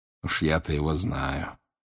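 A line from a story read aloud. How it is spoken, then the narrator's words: Quiet. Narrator (Russian): тихо сказал он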